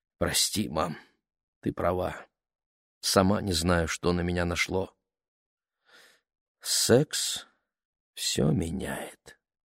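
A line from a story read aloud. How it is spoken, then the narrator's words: Quiet mother. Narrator (Russian): тихо ответила мама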